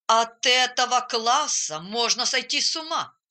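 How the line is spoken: Grumbling. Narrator (Russian): разворчался он

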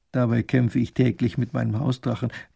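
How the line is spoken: Muttered into teacup. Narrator (German): er es in seine Teetasse murmelt

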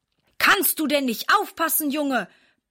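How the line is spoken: Angry blustering. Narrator (German): poltert er ärgerlich

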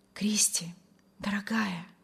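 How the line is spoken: Rapturous whisper. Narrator (Russian): восторженно шептал Вильям

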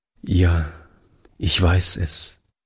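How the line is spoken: Sad young man. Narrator (German): entgegnete der junge Mann traurig

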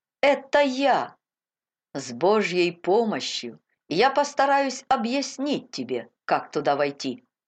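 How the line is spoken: Plain answer. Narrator (Russian): ответил миссионер

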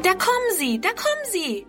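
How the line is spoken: Calling out. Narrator (German): ruft Friedrun

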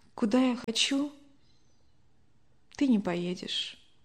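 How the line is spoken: Quiet. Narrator (Russian): Любовь Александровна вздохнула, а затем тихо произнесла

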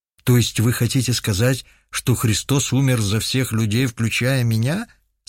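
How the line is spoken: Plain question. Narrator (Russian): спросил Руслан Калимович

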